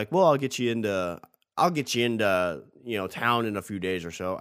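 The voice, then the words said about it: Poor attempt at Australian accent. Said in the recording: “I can't do an Australian accent. That was terrible.”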